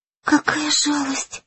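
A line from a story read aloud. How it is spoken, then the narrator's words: Tearful whisper. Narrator (Russian): прошептала Май, и в глазах ее тут же появились слезы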